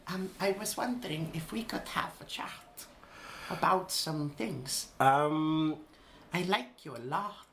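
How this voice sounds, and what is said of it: Put-on Icelandic accent. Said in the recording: “with an Icelandic accent?”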